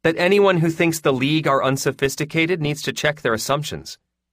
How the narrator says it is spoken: Hans said flatly

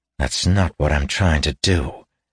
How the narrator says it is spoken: he said grimly

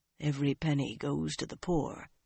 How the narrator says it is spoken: told in a low voice that barely reached her ear

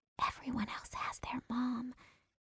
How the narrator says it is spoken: she whispered

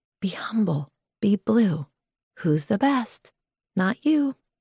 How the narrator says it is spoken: whisper when they cheer

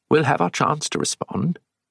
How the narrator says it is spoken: he said, speaking quietly

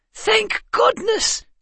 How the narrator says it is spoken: Calvin cried

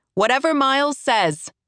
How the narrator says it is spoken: half shouts

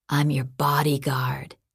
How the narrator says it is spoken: he whispered

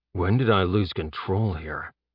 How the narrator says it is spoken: Jeb muttered

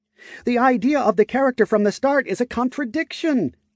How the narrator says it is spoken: Galahan exclaimed

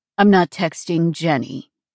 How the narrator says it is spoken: he said dryly

